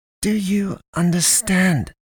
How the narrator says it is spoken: She hisses

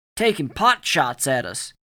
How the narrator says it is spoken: he nearly shouted

